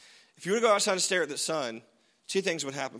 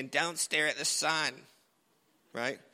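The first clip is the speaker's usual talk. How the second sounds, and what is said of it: Put-on mom voice. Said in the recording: “that was my mom voice. That's not what my mom sound like.”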